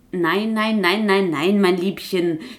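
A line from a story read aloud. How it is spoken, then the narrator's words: Purring, roguish tomcat. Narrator (German): schnurrte dieser Halunke von Kater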